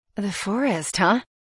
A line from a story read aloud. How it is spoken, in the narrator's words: I murmur